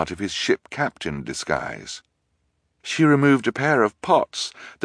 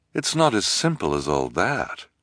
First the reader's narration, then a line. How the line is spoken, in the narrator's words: Olivia said sadly